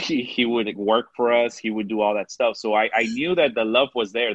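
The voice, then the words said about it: Mexican accent. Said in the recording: “Sometimes my Mexican accent comes out”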